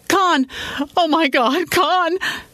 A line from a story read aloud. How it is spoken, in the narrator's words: screamed